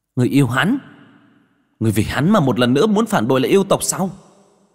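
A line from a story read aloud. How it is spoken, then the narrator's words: Nearly shouting. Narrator (Vietnamese): Hắc Giao miệng nói như quát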